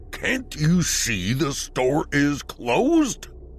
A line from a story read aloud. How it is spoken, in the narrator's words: roared the older gentleman